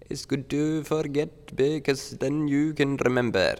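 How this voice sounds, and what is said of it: Put-on Indian accent. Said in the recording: “that was a good Indian accent.”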